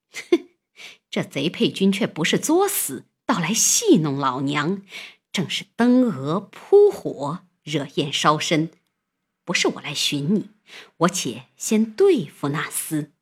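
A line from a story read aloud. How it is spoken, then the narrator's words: Laughing woman musing. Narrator (Chinese): 那妇人笑着寻思道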